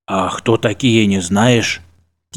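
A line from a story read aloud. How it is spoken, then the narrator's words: Quiet question. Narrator (Russian): тихо спросил Афанасий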